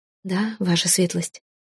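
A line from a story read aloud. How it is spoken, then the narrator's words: Quiet. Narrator (Russian): ответила я тихо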